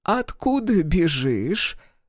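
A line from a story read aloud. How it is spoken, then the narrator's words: Quavering elderly woman. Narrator (Russian): дребезжащим голосом поинтересовалась женщина преклонных лет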